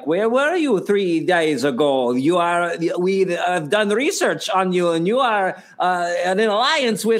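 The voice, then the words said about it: Bad put-on German accent. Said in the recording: “you have a terrible German accent ... I know you can do a better German accent ... Normally, that was like a bad Schwarzenegger.”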